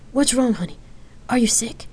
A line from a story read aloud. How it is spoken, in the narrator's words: she worriedly asked, her tone shaking